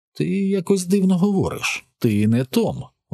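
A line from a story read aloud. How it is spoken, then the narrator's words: Exclaiming. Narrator (Ukrainian): вигукнув він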